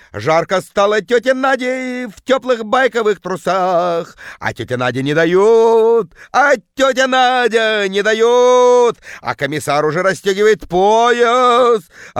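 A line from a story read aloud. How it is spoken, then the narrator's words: Bellowing in deep bass. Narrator (Russian): орала тетка жутким басом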